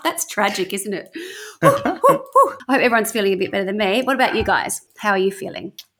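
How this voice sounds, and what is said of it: Slightly out of breath. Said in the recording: “I'm a little bit out of breath, if the truth be known ... I'm a little bit puffed”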